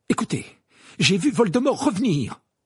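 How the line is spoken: Exclaimed. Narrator (French): s'écria Harry

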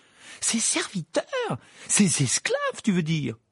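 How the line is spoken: Piercing, interrupting. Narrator (French): l'interrompit Hermione d'une voix perçante

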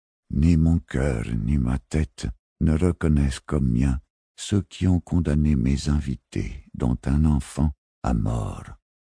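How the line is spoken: Muffled, low voice. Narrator (French): lâcha le Gersalémine d'une voix sourde

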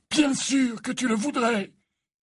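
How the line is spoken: Exclaimed. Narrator (French): s'écria Dumbledore

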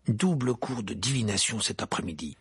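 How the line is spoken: Grumbling growl. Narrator (French): grogna Harry

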